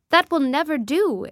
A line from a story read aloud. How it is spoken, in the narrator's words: exclaimed the commander brusquely